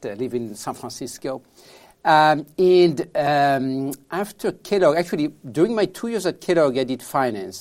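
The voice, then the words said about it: French accent. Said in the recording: “I'm from France originally, as you can tell from my accent.”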